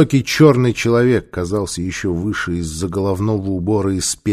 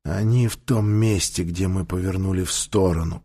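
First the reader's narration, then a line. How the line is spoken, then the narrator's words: Whispered. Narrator (Russian): прошептал Таита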